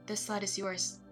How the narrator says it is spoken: he said

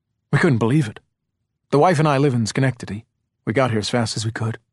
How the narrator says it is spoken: he said again

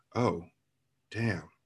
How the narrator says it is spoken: mumbled

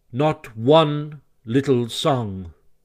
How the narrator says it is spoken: replied the Rat firmly

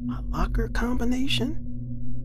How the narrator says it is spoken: He asked quietly in a suspicious context

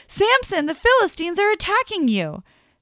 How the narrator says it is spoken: she shouted

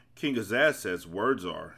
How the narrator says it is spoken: said Milo

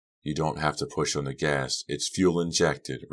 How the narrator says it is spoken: Red said softly

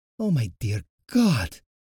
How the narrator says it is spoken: Natasha gasped

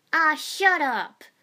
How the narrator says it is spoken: Naruto shouted

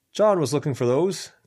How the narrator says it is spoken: Ken called out

